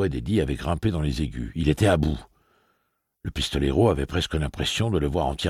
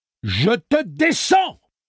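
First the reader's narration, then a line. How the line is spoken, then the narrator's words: Yelled. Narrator (French): hurla Eddie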